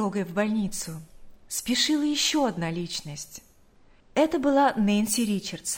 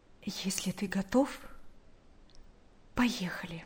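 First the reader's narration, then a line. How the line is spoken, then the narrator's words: Quiet, understanding. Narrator (Russian): Наташа поняла, что происходит в душе брата, и тихо сказала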